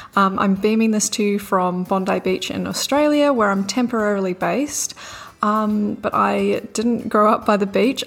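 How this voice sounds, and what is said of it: New Zealand accent. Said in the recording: “I'm from New Zealand. You might have already picked up the accent.”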